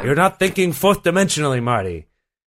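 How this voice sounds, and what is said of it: Terrible Christopher Lloyd impression. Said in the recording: “my Christopher Lloyd impression ... your terrible Christopher Lloyd impression”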